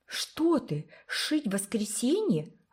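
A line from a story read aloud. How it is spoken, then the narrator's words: Shocked exclamation. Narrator (Russian): воскликнула потрясенная Уна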